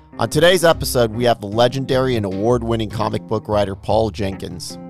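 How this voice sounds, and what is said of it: Hoarse, raspy lost voice. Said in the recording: “I did lose my voice, so I might sound a little bit like Don Vito Corleone from The Godfather”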